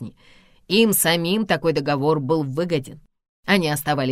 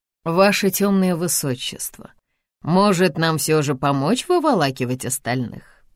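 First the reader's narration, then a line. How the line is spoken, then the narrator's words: Mocking question. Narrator (Russian): насмешливо спрашивает Анис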